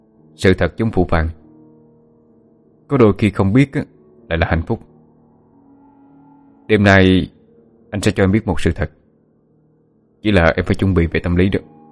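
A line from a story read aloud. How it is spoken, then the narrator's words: Serious, mysterious. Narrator (Vietnamese): Phượng Thánh với vẻ bí ẩn, rồi nghiêm giọng nói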